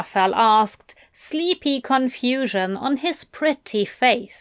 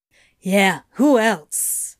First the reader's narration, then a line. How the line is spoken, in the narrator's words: Crowley grunted